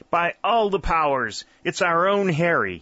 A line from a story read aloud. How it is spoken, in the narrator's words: he exclaimed,